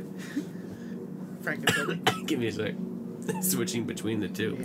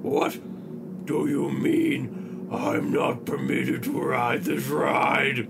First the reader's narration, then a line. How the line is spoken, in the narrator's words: he boomed